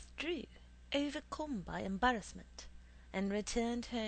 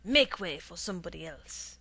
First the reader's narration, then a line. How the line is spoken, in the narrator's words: he said to me roughly